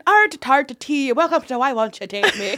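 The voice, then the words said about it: Put-on Irish accent. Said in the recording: “my Irish accent ... That's really good. Well, better than ours.”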